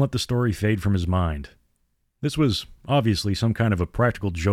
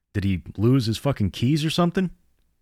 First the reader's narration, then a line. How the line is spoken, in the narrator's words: Carl laughed quietly